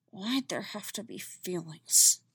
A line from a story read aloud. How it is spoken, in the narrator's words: She muttered